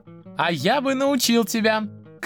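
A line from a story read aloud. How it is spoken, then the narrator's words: Shouting. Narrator (Russian): крикнул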